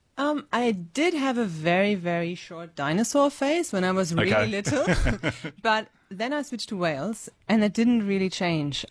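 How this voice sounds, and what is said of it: German accent. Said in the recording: “you grew up in Germany. People probably have just heard your accent there.”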